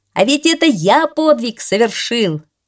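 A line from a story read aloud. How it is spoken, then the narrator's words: Shouting in unison. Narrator (Russian): одновременно кричали герои при каждом новом взлете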